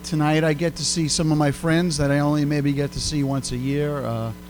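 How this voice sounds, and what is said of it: Brooklyn accent. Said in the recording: “You could probably tell by my accent, I'm not from Chicago. ... I'm from Brooklyn.”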